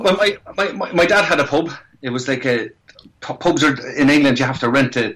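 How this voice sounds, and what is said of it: Irish accent. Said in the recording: “I still have my accent, thank God. You can take the man out of Ireland, but you can't take the Irish out of the man.”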